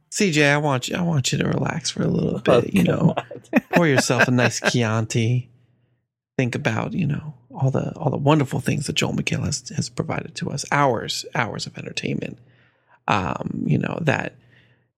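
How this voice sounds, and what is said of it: Calm, soothing public-radio announcer voice. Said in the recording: “Why do you have an NPR voice on right now?”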